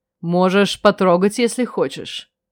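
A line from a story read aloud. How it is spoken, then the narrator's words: Mocking. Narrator (Russian): Ихар насмешливо предложил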